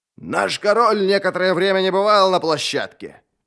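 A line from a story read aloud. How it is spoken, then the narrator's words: Bitter shout. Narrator (Russian): крикнул мастер Хуннан и скривил рот, будто слова были горькими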